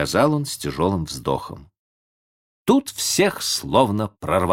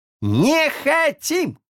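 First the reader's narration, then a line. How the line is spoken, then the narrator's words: Crowd yelling together. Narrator (Russian): заорали все разом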